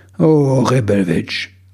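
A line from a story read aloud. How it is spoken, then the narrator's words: Sighing. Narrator (German): seufzte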